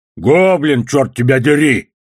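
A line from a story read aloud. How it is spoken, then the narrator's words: One-eyed man barking. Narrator (Russian): рявкнул одноглазый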